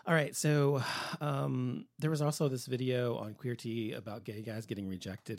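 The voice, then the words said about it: Strained, failing voice. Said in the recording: “My throat is just my voice is going today”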